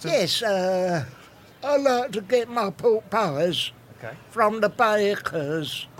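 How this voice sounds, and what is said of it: Impression of Barry, Frank Spencer-like. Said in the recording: “You were going to do an impression of Barry. ... Do an impression of Barry. ... Not ideal. ... Not bad. ... Frank Spencer.”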